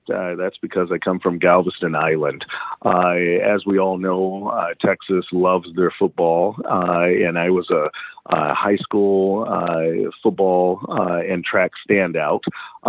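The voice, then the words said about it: Southern American drawl. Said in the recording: “you may hear some Southern accent or some Southern drawl in my dialect.”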